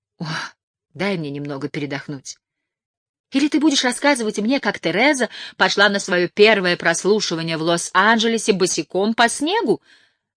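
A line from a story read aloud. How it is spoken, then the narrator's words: Sharp question. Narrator (Russian): резко спросила Лайла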